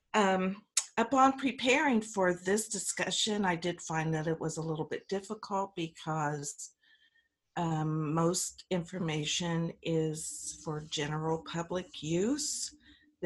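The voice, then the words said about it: Raspy, congested voice. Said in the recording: “excuse my raspy voice. I do have a head cold.”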